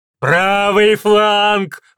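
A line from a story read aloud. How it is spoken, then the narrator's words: Shouted. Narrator (Russian): выкрикнул Гримлиэль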